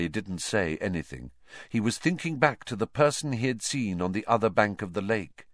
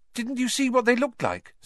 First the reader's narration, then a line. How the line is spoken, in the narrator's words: said Hermione eagerly